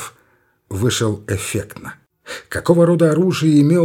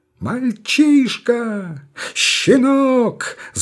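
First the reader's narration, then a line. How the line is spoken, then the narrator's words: Shrill scream. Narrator (Russian): завизжал Покорни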